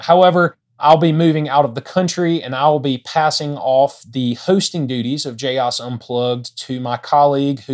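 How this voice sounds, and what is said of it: South Alabama accent. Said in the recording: “you've tired of my South Alabama accent.”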